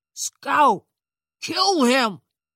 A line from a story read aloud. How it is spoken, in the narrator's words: Thompson roared